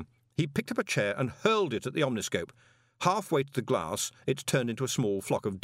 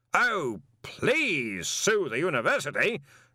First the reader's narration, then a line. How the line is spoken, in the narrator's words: Ridcully bellowed